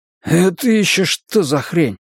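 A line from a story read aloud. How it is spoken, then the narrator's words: Strained, forced out. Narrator (Russian): выдавил Райму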